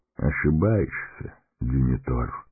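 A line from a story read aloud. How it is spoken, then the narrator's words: Quiet. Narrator (Russian): тихо промолвил маг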